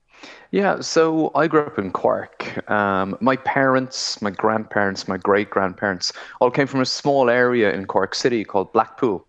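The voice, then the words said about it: Irish accent. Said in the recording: “You've got this lovely Irish accent that's shining through.”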